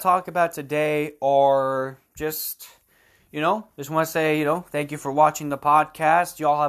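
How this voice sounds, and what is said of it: Usual voice. Nothing is said of it.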